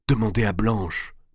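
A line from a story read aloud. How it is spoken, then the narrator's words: Murmured. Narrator (French): murmura-t-elle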